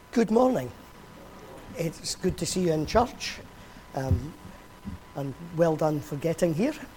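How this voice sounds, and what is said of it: Strained, weakened voice. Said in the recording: “my voice isn't great... there's no way that I could sing through a service”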